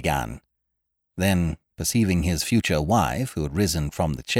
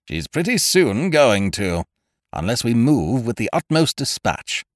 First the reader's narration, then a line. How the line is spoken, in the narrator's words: said Ukridge grimly